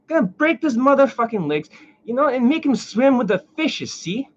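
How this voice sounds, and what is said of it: Italian mobster accent. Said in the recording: “Don't mind the Italian accent. I just I get into it once in a while”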